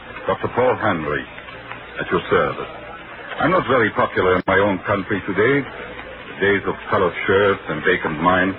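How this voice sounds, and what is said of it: Austrian accent, not British. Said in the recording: “you don't sound British... No, I'm an Austrian”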